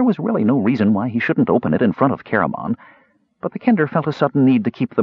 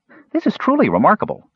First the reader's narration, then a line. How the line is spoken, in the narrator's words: said Earwig happily